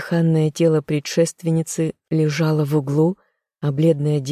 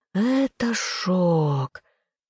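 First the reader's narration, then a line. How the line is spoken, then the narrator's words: Gentle hiss. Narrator (Russian): ласково шипела паучиха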